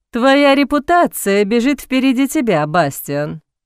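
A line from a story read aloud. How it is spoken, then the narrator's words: Lazy drawl. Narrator (Russian): лениво протянул Боуман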